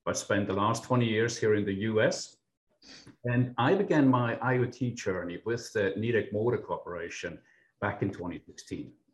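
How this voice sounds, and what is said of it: Swiss-accented English. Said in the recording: “my non-Midwestern accent, I'm actually from Switzerland”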